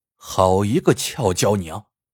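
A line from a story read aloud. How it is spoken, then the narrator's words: Inner admiring thought. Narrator (Chinese): 孙艺兴不由心中赞叹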